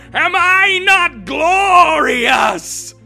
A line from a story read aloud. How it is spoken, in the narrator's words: It screamed from its wide open mouth